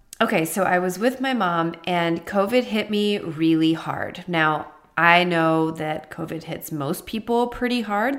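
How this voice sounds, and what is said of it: Strained voice from lingering cough. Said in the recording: “pardon my voice, you guys. I still have a little bit of a cough and some other symptoms”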